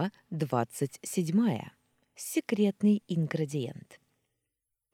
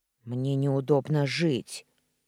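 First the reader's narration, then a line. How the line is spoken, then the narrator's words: Grumbled. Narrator (Russian): буркнул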